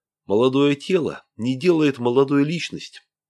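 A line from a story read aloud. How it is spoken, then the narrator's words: Plain. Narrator (Russian): ответил ей Игорь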